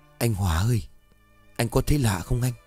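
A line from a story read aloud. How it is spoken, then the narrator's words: Soft whisper. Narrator (Vietnamese): cậu Kiên khẽ thì thào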